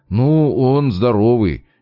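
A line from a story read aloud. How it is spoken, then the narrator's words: Uncertain. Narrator (Russian): неуверенно выдал версию один из студентов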